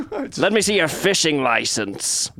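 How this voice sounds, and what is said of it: Put-on accent for a character. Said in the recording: “Why did I give him an accent?”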